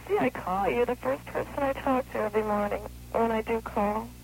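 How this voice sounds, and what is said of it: Sleepy, just-woken-up voice. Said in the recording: “You sound like you got sleep in your eyes.”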